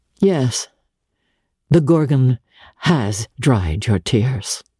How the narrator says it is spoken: he said

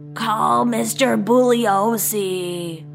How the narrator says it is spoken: Before she passed out, she croaked

